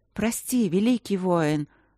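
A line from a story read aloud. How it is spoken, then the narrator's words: Gentle murmur. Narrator (Russian): ласково журчала Люджина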